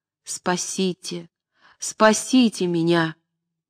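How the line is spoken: Heart-rending voice. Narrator (Russian): Мечиславский раздирающим голосом сказал

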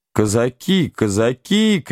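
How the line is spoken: Shouting from all sides. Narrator (Russian): кричали со всех сторон

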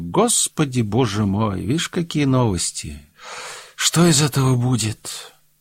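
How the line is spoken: Woman speaking after deep sigh. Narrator (Russian): помолчав несколько минут, она глубоко вздохнула и сказала

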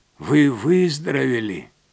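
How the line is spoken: Hoarse, angry old voice. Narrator (Russian): Хриплый голос старика прозвучал сердито, как будто Лилиан обманула его и решила дезертировать

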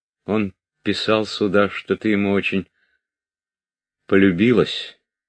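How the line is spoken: Calm, plain. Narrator (Russian): продолжал он просто, спокойно

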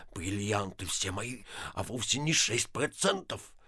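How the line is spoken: Sullen muttering. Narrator (Russian): Ипполит Матвеевич насупился бормоча

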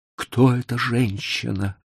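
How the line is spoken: Weak-voiced question. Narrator (Russian): спросил он слабым голосом

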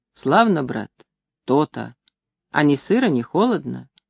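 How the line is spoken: Sighing question. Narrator (Russian): спрашивал, глубоко вздохнув

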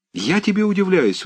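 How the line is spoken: Exclaimed. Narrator (Russian): воскликнул Аркадий

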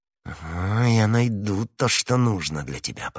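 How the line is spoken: Whispered through clenched teeth. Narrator (Russian): прошептала сквозь зубы миледи

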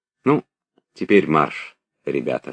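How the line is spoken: Plain. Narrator (Russian): сказал Анатоль

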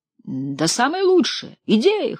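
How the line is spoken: Hoarse wheeze. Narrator (Russian): хрипел Агапенов

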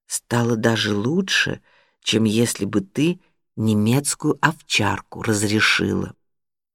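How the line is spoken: Whispered in ear. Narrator (Russian): Юрик шепнул Норе на ухо

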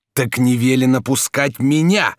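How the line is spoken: Shouting. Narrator (Russian): закричал Бенвенуто

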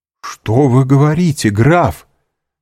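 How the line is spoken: Frantic exclamation. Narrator (Russian): вне себя воскликнул Максимилиан

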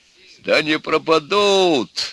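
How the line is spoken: Old sailor's exclamation. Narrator (Russian): воскликнул дед Кузьма, храбрый старый матрос

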